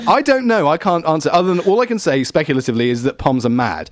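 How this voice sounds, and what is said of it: Australian accent. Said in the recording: “Yeah, all right, the accent gave away ... no one buys convertibles in Australia”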